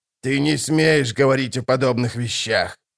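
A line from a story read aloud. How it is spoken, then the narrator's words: Old woman hissing. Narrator (Russian): прошипела старуха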